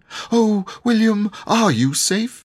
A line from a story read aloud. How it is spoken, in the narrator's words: she cried